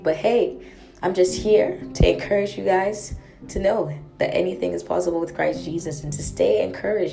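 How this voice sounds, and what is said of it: Hoarse, weakened voice. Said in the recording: “sorry for my voice. I lost my voice”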